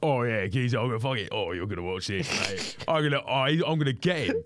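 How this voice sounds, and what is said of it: Rough British geezer voice impression. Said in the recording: “your impression of a geezer ... it's just a geezer”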